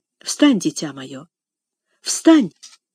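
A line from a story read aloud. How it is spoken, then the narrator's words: Gentle. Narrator (Russian): мягко сказала мисс Офелия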